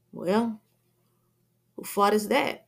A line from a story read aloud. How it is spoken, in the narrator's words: Lucky adds sarcastically